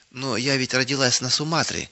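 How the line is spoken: Timid objection. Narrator (Russian): набравшись смелости, робко возразила она

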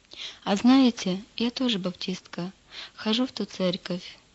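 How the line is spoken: Calm. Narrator (Russian): спокойно произнесла Лида

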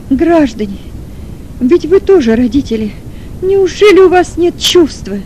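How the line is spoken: Sobbing shout. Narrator (Russian): Кричала с рыданием мать Маргариты

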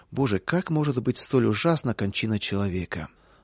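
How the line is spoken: Heavy sigh, prisoner. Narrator (Russian): один из заключенных тяжко вздохнул

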